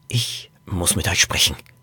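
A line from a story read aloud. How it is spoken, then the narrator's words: Whisper. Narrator (German): flüsterte Norbert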